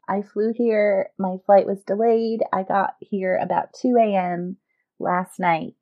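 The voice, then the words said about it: Rough, raspy tired voice. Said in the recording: “sounding a little rough ... sounded like you just were in a mosh pit at like a death metal concert”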